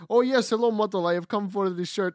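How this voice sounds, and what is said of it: Put-on Russian accent. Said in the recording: “I came in that Russian accent.”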